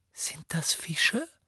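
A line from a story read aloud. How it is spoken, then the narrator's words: Breathy whisper. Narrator (German): hauchte Ginny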